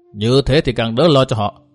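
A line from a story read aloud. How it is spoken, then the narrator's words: Cold old man. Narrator (Vietnamese): Lão một giò lạnh lùng nói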